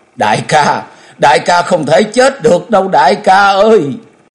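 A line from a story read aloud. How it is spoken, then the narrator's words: Anguished cry. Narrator (Vietnamese): Nàng cất tiếng thống thiết kêu lên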